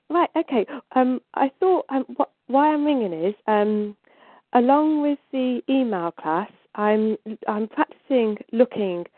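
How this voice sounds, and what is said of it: Snuffly voice with a cold. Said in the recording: “I have a cold, so do forgive me if I sound a bit snuffly.”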